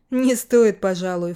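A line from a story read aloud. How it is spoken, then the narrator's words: Snort. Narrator (Russian): фыркнул я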